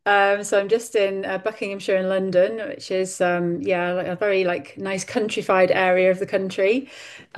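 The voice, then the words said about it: British accent. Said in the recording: “I'm from the UK, as you can probably tell by my accent”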